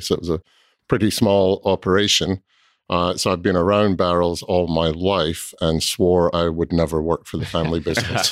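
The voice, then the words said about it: Slight Scottish accent. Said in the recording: “you have an accent, right? ... slightly. ... I grew up in Scotland”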